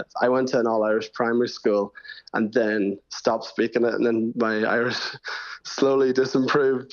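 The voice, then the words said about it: Slight Northern Irish accent. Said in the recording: “I'm hearing a bit of a northern accent in your voice right now ... a bit of a half and half accent ... you're quite definitely going to have a northern accent”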